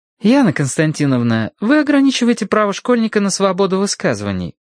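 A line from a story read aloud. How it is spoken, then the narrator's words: Innocent tone. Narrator (Russian): невинным голосом заметила Зинаида Ивановна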